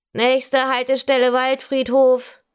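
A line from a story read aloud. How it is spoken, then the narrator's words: Crackly male loudspeaker announcement. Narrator (German): krächzt die männliche Ansagestimme aus dem Lautsprecher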